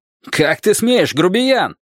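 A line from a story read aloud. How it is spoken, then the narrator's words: Shout. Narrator (Russian): крикнул он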